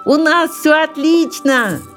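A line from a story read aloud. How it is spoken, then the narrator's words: Shouted. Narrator (Russian): крикнул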